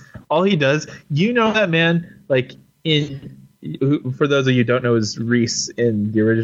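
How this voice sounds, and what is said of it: Usual voice. Nothing is said of it.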